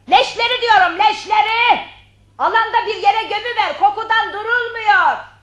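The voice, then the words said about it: Shouting. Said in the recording (Turkish): “bağırmadın mı ... Ah bu bağırma öldürüyor beni”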